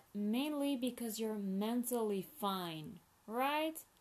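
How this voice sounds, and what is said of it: Sarcastic tone. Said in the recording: “I'm being sarcastic, obviously.”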